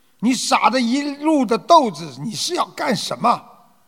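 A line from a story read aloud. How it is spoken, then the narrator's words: Angry roaring. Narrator (Chinese): 他很生气，他咆哮着对他的妈妈说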